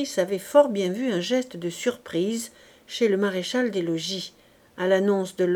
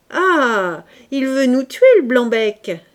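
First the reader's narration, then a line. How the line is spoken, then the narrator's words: Soldiers shouting. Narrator (French): s'écrient les hussards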